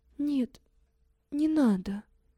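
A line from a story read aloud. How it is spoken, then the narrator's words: Barely audible whisper. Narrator (Russian): чуть слышно шепчет Катя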